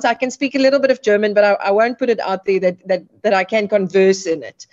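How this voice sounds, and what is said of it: Afrikaans South African accent. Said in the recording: “I'm from a very Afrikaans home, grew up Afrikaans ... the accent is definitely Afrikaans”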